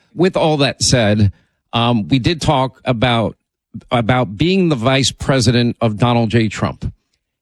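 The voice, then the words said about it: Hoarse voice from laryngitis. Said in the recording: “I was fighting through my laryngitis, but it's slowly getting better”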